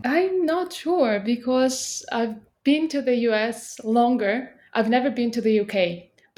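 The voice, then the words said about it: British-leaning non-native English accent. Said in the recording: “your accent is more British”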